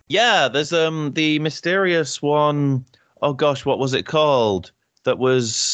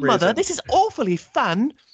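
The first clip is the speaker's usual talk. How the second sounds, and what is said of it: Young British boy's accent. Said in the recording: “a 4-year-old British lad ... That was my accent when I was four.”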